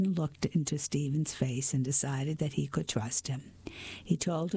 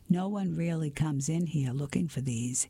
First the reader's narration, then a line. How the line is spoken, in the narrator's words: he said with a chuckle